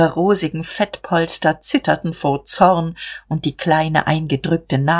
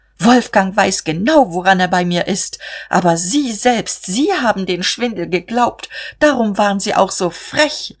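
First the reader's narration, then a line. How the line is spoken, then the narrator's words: Call out. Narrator (German): rief sie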